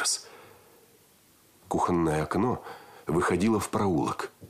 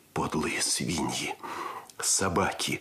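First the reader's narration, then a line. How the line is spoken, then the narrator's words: Growling. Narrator (Russian): рычал Андрес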